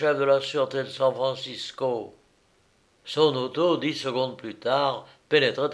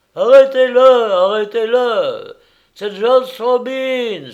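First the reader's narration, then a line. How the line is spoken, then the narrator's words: Men yelling while running. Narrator (French): hurlèrent les quatre hommes en courant comme des fous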